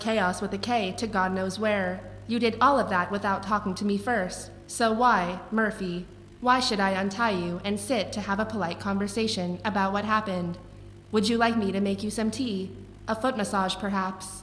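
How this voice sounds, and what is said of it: Imitation of a woman's voice. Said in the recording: “doing the voice. You sound exactly like her. It's creepy.”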